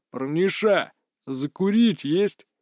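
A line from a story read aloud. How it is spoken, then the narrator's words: Lazy question. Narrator (Russian): лениво спросил один из них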